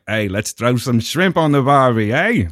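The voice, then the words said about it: Bad put-on Australian accent. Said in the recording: “that is a terrible, Australian accent.”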